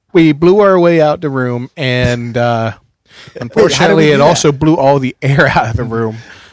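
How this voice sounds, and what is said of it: Put-on radio announcer voice. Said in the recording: “this fabulous new radio voice I have found ... He's a radio scientist.”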